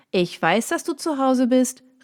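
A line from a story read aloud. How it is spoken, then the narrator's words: Familiar voice calling outside. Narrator (German): rief eine bekannte Stimme von draußen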